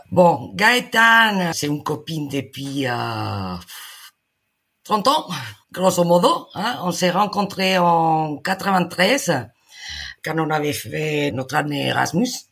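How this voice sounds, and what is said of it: Spanish accent in French. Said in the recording (French): “Vous êtes espagnol, ça s'entend plus avec l'accent d'”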